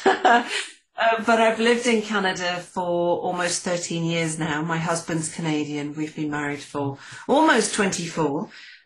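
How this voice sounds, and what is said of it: Accent that doesn't sound Canadian. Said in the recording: “I don't sound very Canadian”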